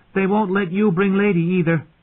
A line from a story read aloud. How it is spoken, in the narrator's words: Arya shouted after her